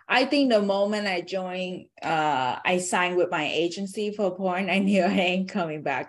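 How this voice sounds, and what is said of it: Asian accent in English. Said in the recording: “me being Asian ... And my accent is it give it away.”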